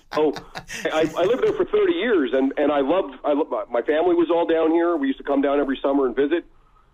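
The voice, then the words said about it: Slight Canadian lilt. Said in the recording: “Canadian lilt in the back of your voice”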